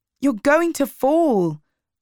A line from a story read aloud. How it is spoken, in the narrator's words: I shouted